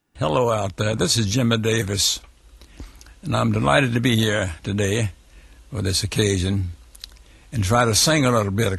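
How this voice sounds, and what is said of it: Hoarse speaking voice. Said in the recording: “I'll have trouble singing as hoarse as I am”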